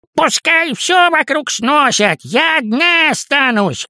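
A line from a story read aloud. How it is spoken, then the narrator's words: Distant shout. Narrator (Russian): крикнула тетя Паня со своего этажа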